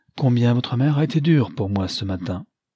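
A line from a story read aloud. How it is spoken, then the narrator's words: Cheerful. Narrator (French): dit gaiement Lionel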